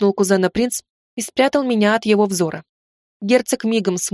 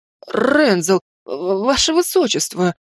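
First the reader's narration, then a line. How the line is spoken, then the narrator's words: Trembling babble. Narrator (Russian): дрожащим голосом залопотал Растис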